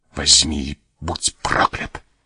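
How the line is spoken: Voice breaking with rage. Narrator (Russian): сказал майор, прерывающимся от бешенства голосом

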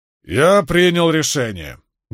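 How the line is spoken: Loud announcement. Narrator (Russian): громко для всех объявил Брин

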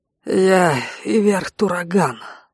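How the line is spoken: Hoarse rasp. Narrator (Russian): прохрипел Игуш

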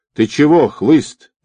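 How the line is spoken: Yelled. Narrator (Russian): заорал Бен

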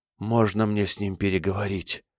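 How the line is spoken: Whispered. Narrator (Russian): прошептал один из них

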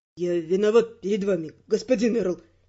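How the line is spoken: Young man speaking quietly. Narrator (Russian): тихо сказал юноша

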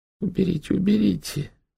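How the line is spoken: Old man's plaintive plea. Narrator (Russian): жалобно попросил старик

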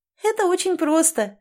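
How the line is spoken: Laughing. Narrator (Russian): рассмеялась Тамретта

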